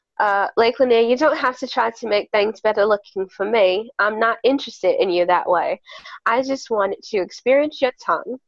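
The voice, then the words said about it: Put-on accent. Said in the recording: “because I lost my accent, like, at the very end.”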